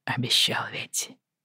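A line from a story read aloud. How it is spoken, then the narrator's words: Soft reply. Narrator (Russian): мягко отозвался Джейми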